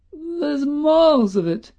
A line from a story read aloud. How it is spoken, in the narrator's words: quavered old Woody Field